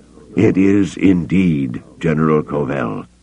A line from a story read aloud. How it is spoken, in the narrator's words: Cabauth said gravely